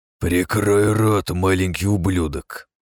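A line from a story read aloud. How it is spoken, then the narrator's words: Through gritted teeth. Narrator (Russian): процедил Рудольф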